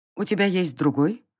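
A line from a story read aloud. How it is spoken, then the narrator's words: Warrior woman's cold question. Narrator (Russian): холодно поинтересовалась воительница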